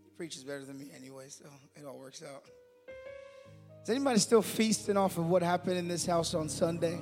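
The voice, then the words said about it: Strained, fading voice. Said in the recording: “My voice is going a little bit tonight”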